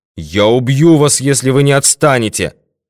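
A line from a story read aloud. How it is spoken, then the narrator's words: Shouted. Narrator (Russian): крикнул Норман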